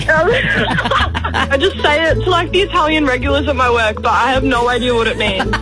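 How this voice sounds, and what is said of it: Broad Australian accent. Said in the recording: “your beautiful broad Australian accent”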